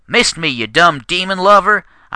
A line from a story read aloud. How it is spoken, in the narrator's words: I shouted down